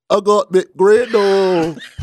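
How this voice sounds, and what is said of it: Mock British accent. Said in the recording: “Can you do it in a British accent? ... No longer the worst British accent haver”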